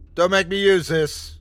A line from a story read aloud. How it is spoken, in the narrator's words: I yelled at it again